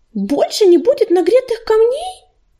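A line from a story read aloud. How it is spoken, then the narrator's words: Terrified squeak. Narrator (Russian): пискнула белочка, и голос ее был полон ужаса, как крик брошенного котенка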